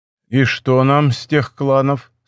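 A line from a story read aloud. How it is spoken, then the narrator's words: Plain question. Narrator (Russian): спросил император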